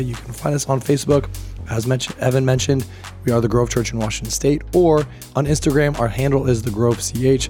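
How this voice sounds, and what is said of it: Hoarse voice recovering from laryngitis. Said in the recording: “my voice is a little bit better than it was last week ... I got diagnosed with laryngitis ... my voice is coming back”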